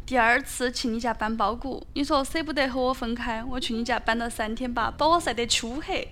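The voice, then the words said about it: Sichuan dialect reading. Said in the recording (Chinese): “请用四川话读出来”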